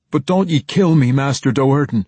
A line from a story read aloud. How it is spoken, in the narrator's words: one middle-aged man whimpered